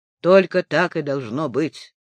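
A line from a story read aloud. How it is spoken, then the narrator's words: Grim. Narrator (Russian): мрачно сказала она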